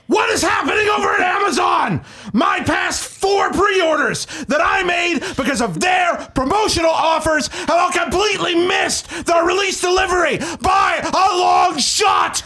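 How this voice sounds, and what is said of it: Mock angry ranting voice. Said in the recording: “do your Angry ... voice? ... I need Angry ... voice, please.”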